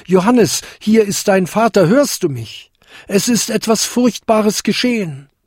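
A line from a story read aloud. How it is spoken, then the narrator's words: Called out. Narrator (German): rief er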